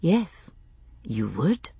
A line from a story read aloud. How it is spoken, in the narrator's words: I said again, very softly